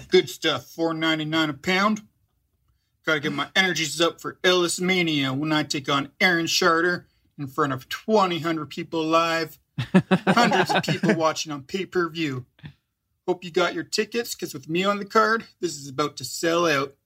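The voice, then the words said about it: Character voice with odd accent. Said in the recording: “That was a weird accent.”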